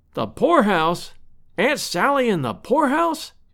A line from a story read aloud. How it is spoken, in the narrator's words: exclaimed Lovell